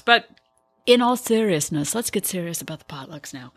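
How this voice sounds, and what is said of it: Exaggerated serious NPR-style voice. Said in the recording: “Is that your serious voice? ... That's my very serious voice. Okay. It's my NPR voice.”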